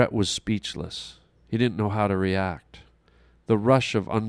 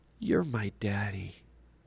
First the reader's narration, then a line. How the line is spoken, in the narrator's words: in a sleepy little child's voice half-whispered